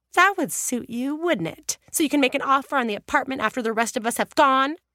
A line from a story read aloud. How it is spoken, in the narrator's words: Julia glared suspiciously at him and snapped